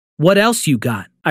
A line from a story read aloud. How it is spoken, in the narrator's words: I responded calmly